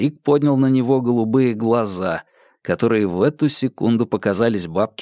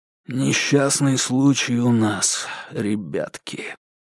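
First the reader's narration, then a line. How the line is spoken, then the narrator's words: Quiet. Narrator (Russian): тихо сказал он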